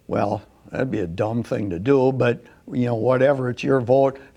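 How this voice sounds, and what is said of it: Wisconsin accent. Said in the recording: “that Wisconsin accent is just priceless”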